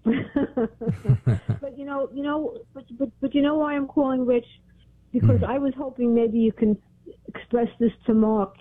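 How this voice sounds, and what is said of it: Brooklyn accent. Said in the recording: “It sounds like you're from Brooklyn.”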